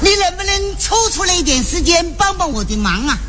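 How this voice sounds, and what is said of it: Southern Chinese accent. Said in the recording (Chinese): “听口音，这位是南方人。”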